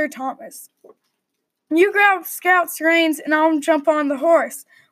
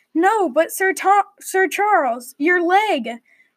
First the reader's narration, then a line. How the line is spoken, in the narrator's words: gasped Thomas